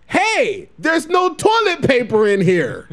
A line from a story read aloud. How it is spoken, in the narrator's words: yelled very loudly